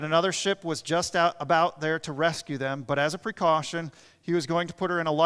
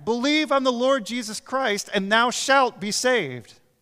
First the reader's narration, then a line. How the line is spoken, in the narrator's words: He shouted back